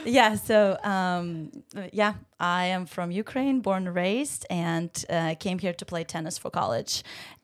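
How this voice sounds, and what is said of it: Ukrainian-accented English. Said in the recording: “So everyone can hear your accent.”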